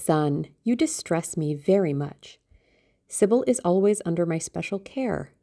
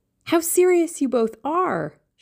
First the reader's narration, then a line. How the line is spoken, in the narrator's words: she cried